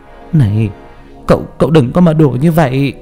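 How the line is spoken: Trembling voice. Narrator (Vietnamese): Mẹ tôi run rẩy

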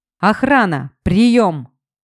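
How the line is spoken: Shouting into phone. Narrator (Russian): орал в свой мобильник Стас

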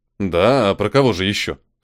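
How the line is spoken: Snort. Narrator (Russian): хмыкнул я

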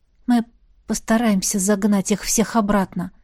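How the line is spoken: Quiet promise. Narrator (Russian): тихо пообещала

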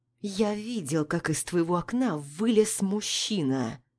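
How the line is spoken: Quiet stern voice. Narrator (Russian): Тихо, но в то же время строго говорит Рустам

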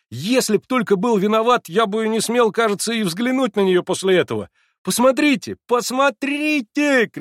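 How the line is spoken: Shouted. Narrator (Russian): кричал он, обращаясь ко мне

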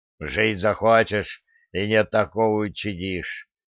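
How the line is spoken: Companion's grim spat remark. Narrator (Russian): мрачно сплюнул его сопровождающий

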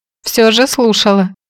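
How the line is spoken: Snorting remark. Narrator (Russian): хмыкнул Фрэнк

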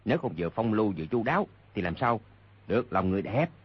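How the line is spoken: Low laughing chatter. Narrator (Vietnamese): Hai người hạ giọng bàn tán cười nói

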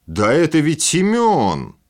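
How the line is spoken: Man barking loudly. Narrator (Russian): гаркнул снова мужчина

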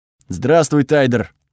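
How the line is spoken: Rough savage voice, no accent. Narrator (Russian): ответила она грубым голосом дикаря, без малейшего акцента

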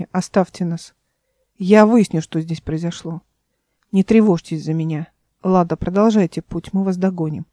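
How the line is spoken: Spoke calmly. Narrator (Russian): говорила она спокойно

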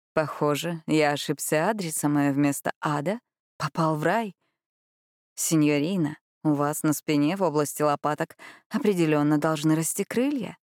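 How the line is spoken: Silky, husky male voice. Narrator (Russian): Вкрадчивый мужской голос с бархатистой хрипотцой произнес

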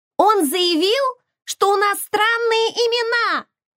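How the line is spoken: Shrieking. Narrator (Russian): Визжала Май

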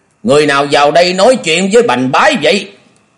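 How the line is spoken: Loud shouted question. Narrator (Vietnamese): lớn tiếng thét hỏi

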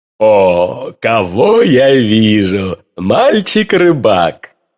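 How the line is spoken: Pleasant low exclamation. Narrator (Russian): воскликнул он приятным низким голосом

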